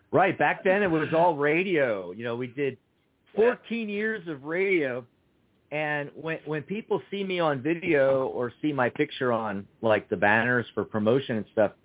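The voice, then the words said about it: Smooth radio voice. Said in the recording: “I got that radio voice ... very very smooth, very smooth presentation”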